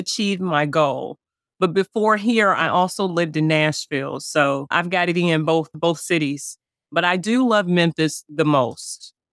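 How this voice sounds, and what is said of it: Slight Southern American accent. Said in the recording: “A little bit. Yeah, I can hear it. ... you definitely have a little bit of a Southern accent. We can hear we can hear that.”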